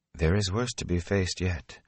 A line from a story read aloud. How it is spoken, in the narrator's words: Moraine said softly